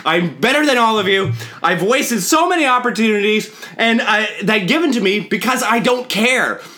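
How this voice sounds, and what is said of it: Yelling. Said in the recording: “I'm yelling at you, my guest in my house. I'm yelling at you right now”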